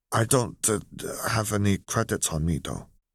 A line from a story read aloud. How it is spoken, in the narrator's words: he finished in a mutter, embarrassment rolling in over him